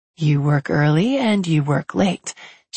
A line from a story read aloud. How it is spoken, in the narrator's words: she says